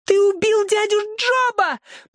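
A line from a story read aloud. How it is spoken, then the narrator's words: Piercing scream. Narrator (Russian): пронзительно закричала она на Джексона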